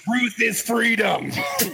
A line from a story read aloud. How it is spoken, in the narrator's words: screaming